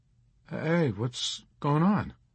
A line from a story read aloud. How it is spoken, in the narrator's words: Kid Sampson asked nervously